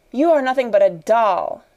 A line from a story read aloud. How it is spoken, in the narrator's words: she cried